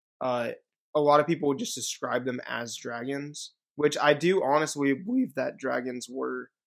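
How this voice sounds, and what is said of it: Voice cracks. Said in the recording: “my voice cracked a little bit”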